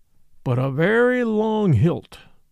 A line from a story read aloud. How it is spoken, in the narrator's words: assented Brown, nodding solemnly like an owl